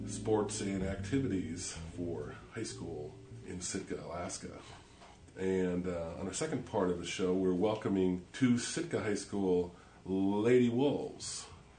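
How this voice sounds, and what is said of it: Sick, congested-sounding voice. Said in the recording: “Probably tell that I have a cold”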